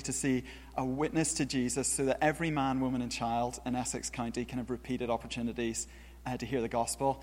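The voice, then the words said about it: Northern Irish accent. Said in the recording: “this isn't a Beverley accent ... I'm from Northern Ireland originally ... British-sounding accents”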